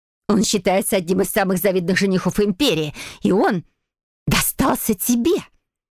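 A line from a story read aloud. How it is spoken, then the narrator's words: Disgusted, angry hiss. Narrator (Russian): прошипела Дейзи, скривившись от отвращения и злости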